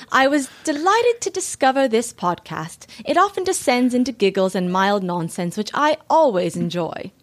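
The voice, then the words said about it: Put-on British accent. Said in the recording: “You have to do it in a British accent. ... I'll try. ... That sounds like Mary Poppins.”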